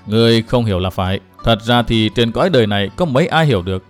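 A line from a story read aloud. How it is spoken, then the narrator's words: Smiling. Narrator (Vietnamese): Ông mỉm cười nói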